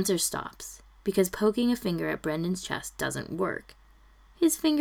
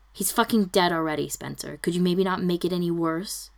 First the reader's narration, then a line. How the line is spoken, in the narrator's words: he snaps